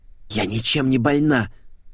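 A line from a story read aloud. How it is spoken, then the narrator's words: Hissing. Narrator (Russian): зашипела Света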